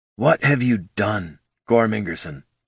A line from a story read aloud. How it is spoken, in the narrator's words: She muttered